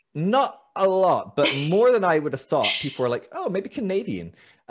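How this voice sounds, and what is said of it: Mixed Scottish and American accent. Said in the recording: “my accent is all over the place. But yeah, it's kind of this quasi blend of Scottish and American”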